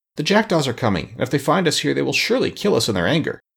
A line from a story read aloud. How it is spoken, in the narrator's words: Tip exclaimed